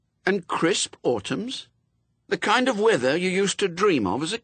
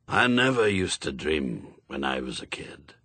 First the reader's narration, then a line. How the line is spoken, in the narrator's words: he said quietly